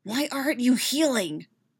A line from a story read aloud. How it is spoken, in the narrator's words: He hisses